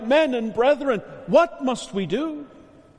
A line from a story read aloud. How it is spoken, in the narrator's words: they cried out